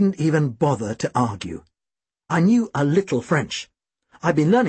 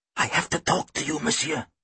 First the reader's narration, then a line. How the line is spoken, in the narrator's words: he rasped